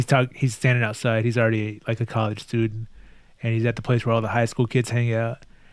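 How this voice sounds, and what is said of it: Usual voice. Nothing is said of it.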